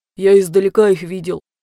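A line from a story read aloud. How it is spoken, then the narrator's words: Deep bass voice. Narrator (Russian): пробасил Куран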